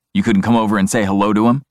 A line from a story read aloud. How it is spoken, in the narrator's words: my older brother demands irritably